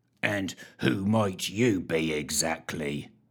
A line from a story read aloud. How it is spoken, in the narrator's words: He growled